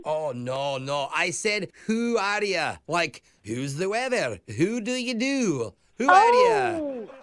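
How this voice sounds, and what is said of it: Thick Scottish accent. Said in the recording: “Your accent is very thick. ... I just moved here from Scotland. ... I do have a wee bit of an accent.”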